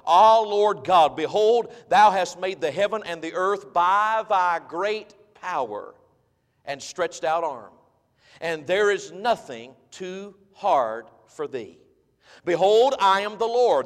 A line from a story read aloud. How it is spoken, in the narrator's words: the Bible says